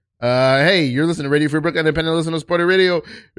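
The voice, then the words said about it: Reads very fast. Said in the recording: “read this really fast.”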